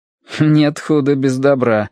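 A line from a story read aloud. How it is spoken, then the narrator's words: Wry snort. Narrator (Russian): хмыкнул мичман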